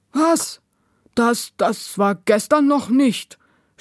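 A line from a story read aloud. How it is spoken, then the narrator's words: Stammering. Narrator (German): stammelte der mit der Krücke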